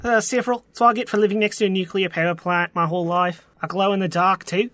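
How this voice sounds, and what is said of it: Canadian accent. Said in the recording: “I think he's Canadian. You hear that accent?”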